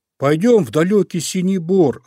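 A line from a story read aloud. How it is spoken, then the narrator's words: Bear cub shouting. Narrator (Russian): закричал Мишка-медвежушка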